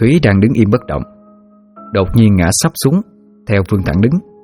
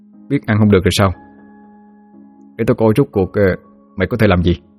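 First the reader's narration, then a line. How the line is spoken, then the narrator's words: Sneering mutter. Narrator (Vietnamese): Khá lại cười mỉa, miệng khẽ lẩm bẩm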